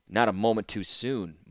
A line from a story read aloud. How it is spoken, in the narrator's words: muttered Ashnod, not caring if Mishra heard her or not